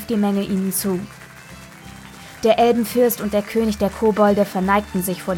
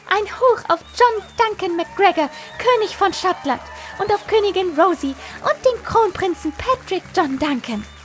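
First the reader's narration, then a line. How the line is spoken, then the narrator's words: Excited shout, loud as possible. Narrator (German): Fiona flatterte aufgeregt und rief so laut sie konnte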